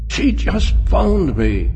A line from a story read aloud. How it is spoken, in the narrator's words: he cried thickly